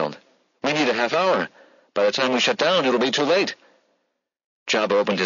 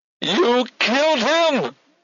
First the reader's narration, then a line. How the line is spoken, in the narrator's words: she screamed